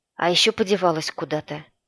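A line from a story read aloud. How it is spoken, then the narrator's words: Grumbling. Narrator (Russian): проворчал Сенюхин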